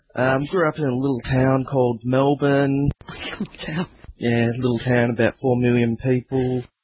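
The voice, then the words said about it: Faint Australian accent. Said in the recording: “I detect a faint accent ... that definitely kind of an accent here. I'm an Australian.”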